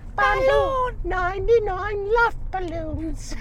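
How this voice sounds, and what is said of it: Little boy's voice, English accent. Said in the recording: “a little boy with an English accent”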